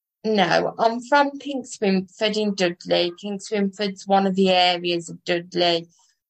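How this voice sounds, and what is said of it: Midlands English accent. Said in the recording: “as people will tell by your accent, you're from the Midlands”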